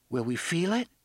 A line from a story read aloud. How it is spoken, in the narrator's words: Susanna asked uneasily